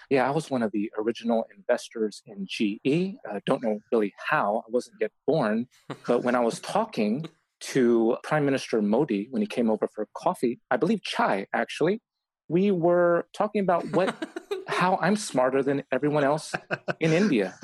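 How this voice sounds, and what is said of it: Tim Ferriss impression. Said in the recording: “your Tim Ferriss impression ... So that's my Tim Ferriss.”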